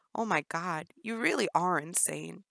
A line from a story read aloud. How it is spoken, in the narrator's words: Jennifer gasped